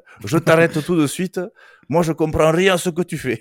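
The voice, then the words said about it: Old man, southern French accent, rolled r. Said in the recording (French): “l'accent de mon grand-père, mais imaginez-vous un, un, vieil homme du Tarn avec un accent du Sud et qui roule l'air”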